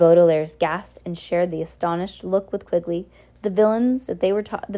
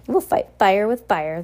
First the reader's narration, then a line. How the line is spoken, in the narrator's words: the woman with hair but no beard cried in triumph